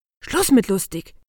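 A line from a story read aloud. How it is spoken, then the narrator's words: Hissed. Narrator (German): zischte Dr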